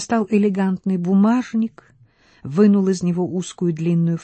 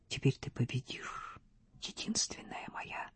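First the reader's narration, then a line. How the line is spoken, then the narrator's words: Silent sad whisper. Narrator (Russian): мысленно шепнул, печально улыбавшись Стефе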